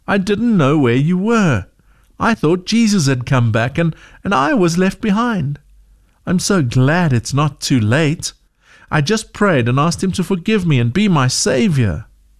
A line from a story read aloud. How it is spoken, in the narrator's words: cried Zoe